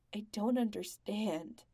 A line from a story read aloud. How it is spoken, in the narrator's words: says, his voice cracking on the last word